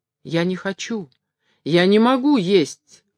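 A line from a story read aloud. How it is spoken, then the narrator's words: Timid. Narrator (Russian): робко сказал башмачник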